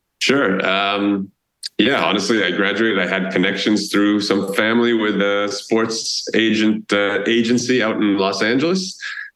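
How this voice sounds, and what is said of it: Boston accent. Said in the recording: “you grew up near Boston, which is apparent by your accent, at least to me as a Midwesterner”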